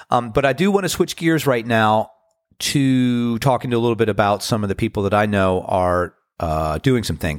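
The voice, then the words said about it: Deep voice from a cold. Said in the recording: “you can tell that I have a deep voice because I've actually been getting over a spring cold. So I have my radio voice”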